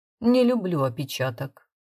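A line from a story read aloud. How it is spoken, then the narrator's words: Plain. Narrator (Russian): сказал он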